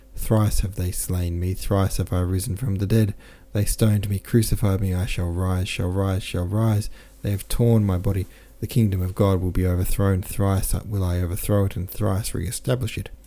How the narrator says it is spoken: cried, raising his voice higher and higher

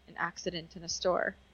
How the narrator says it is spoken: The child mumbles

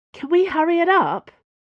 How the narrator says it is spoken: Dana said anxiously

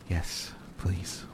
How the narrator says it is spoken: whispered the dog

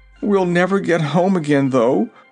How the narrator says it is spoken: declared Zeb with a groan

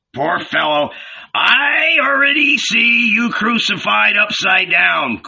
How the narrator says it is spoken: growled Zebedee

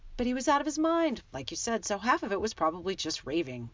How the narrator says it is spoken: Ron said in a falsely confident voice

